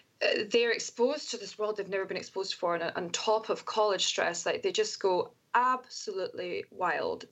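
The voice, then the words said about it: Scottish accent. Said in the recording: “being a Scottish person in America is as soon as I open my mouth and they hear my accent”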